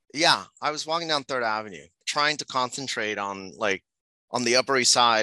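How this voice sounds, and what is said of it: Distinctive regional accent. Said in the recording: “People are gonna just eat up this accent.”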